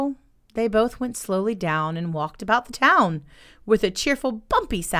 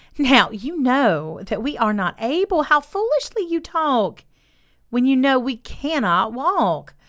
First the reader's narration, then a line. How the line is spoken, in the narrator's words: said the table with a sigh